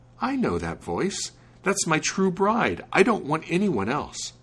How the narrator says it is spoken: he exclaimed

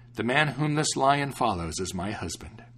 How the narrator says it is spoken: she exclaimed happily

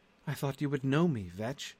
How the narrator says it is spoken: His voice shook a little as he said

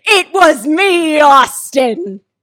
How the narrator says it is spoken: screamed

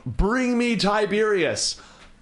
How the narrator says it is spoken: the new High Priestess of Masru, Enhe Dwana, who is yelling out

